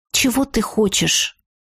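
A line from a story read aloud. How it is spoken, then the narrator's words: Gloomy question. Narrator (Russian): мрачно осведомилась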